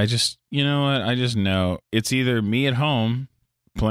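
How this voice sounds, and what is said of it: Usual voice. Nothing is said of it.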